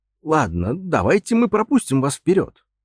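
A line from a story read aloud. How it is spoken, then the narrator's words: Uncertain suggestion. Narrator (Russian): неуверенно предложил я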